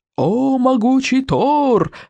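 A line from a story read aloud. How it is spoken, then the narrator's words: Yelling old madman. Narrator (Russian): заорал старый псих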